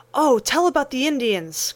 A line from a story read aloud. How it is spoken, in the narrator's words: cried Demi, who was fond of playing wigwam